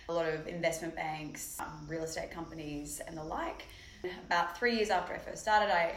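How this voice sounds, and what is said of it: Australian accent. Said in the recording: “it's an accent day, it seems like. I'm also from the South, but a little bit further south. From Australia, originally from Sydney.”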